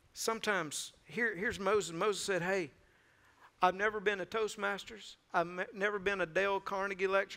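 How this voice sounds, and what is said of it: Thick Mississippi accent. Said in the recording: “That thick Mississippi accent”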